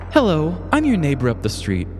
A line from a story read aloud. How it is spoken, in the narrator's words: Haley said